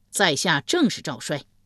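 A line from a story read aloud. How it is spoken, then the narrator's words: Loud reply. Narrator (Chinese): 赵衰高声应道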